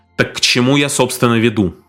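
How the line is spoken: Sharply raised voice. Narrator (Russian): резко повысил голос Дональдсон

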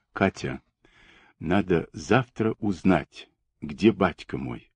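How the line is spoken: Quiet speech. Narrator (Russian): тихо проговорила Оксана

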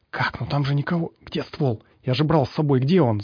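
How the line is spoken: Rapid ringing whisper. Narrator (Russian): зачастил химик звенящим шепотом

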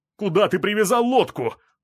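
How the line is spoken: Yelled question. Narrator (Russian): заорал на меня Платон

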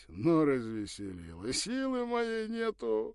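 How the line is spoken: Strained laugh. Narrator (Russian): натужно засмеялся

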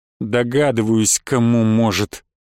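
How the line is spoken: Angry, through gritted teeth. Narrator (Russian): процедил я сквозь зубы, медленно утопая в смоле собственного гнева

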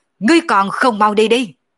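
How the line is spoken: Angry roar. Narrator (Vietnamese): nổi giận gầm lên một tiếng nói

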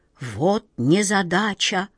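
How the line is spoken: Whisper. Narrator (Russian): прошептала тетушка Ох

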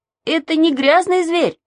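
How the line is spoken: Shouting. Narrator (Russian): закричал Саша

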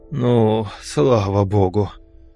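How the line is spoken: Relieved exhale. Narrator (Russian): облегченно выдохнул я

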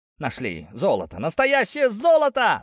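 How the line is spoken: Excited shout. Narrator (Russian): закричал Сафрон, первым заметивший драгоценный металл на дне лотка

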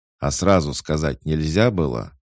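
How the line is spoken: Angry question while dodging. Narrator (Russian): зло спросил Макс, уворачиваясь от очередной атаки

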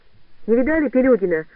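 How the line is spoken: Shout. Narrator (Russian): крикнула Катя

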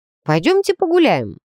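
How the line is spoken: Overly cheerful. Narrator (Russian): излишне бодро предложила я

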